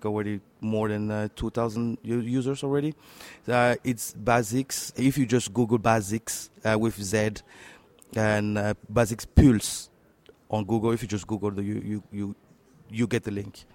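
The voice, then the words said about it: French accent. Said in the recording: “My French, yeah. You know, my French accent always always betraying.”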